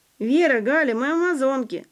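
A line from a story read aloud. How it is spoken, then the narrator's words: Laughing. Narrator (Russian): засмеялась Валентина Гавриловна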